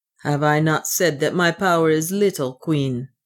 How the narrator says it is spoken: he answered somewhat sullenly

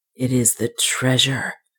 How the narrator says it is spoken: he said in a low tone of exultation

